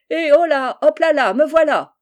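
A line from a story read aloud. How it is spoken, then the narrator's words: Shout. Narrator (French): cria-t-il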